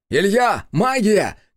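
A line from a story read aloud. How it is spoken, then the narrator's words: Shout while dodging. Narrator (Russian): крикнул я, уклоняясь от удара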